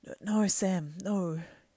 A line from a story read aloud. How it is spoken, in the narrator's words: he said sadly